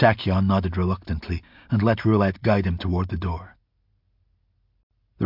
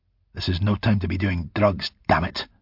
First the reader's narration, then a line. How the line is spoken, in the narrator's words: Hiram snapped at him